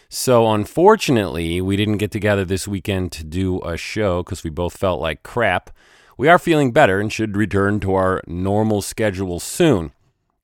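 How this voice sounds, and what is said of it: Sick, flu-affected voice. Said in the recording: “as you can tell from my voice, I've been a little sick. Got a little flu.”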